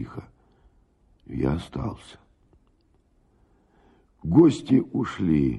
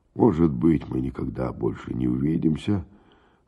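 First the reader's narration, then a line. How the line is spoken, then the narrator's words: Plain. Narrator (Russian): сказал он мне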